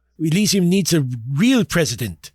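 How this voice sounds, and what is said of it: Put-on accent. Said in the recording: “I'm going to try for the accent.”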